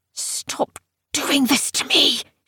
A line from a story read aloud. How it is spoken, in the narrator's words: she was hissing